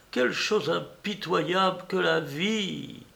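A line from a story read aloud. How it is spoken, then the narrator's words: Exclamation. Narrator (French): s'écria-t-elle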